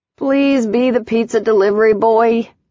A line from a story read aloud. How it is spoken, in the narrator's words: she called out weakly